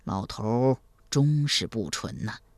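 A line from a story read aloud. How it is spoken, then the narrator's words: Soft sigh. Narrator (Chinese): 赵匡胤轻声叹道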